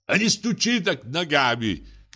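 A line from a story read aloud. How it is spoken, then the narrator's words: Sudden angry shout. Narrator (Russian): крикнул вдруг злобно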